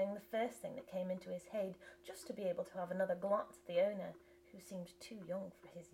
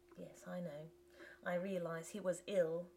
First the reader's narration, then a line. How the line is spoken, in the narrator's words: said Ivlev